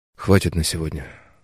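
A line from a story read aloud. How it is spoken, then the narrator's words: Quiet, hoarse, exhausted. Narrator (Russian): сказал ей тихо, голос внезапно охрип, усталость настоящая, костная, навалилась на тело ватной, обволакивающей тяжестью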